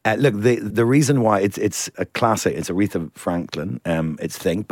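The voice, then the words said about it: Smooth radio DJ voice. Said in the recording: “put on my Jazz FM voice.”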